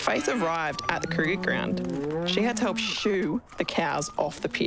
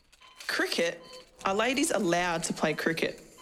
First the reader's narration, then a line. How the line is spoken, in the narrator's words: The sister laughed